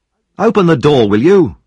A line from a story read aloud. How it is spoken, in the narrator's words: shouted a voice through the keyhole